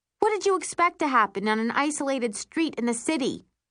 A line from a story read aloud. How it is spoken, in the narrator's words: scream